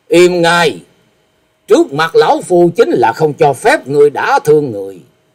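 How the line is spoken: Angry snort. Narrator (Vietnamese): Như Ý Tẩu Đông Phương Húc tức giận hừ một tiếng nói

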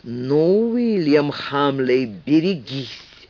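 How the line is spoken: Through gritted teeth. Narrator (Russian): процедил сквозь зубы Ричард

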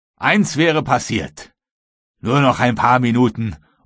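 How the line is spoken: Cheerful calling. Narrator (German): Croxton rief wohlgemut

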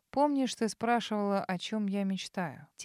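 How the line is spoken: Soft-voiced question. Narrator (Russian): Тем же негромким голосом спросил канцлер

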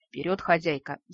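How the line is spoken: Sighing. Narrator (Russian): вздохнула правая полушария

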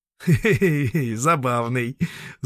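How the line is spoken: Laughing. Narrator (Russian): засмеялся Дублон

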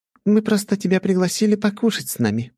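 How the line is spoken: Giggling. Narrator (Russian): хихикнула Нахимова

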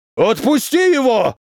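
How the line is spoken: Yelling. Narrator (Russian): заорал воздушник

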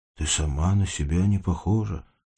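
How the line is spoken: Quiet. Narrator (Russian): тихо говорил Егор

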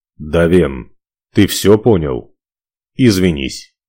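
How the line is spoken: Clipped, curt. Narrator (Russian): отрывисто бросил Ивар

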